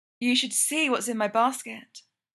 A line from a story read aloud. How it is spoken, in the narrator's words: she whispers